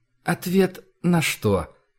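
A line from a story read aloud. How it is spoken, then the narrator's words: Calm hierarch asking. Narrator (Russian): спокойно уточнил иерарх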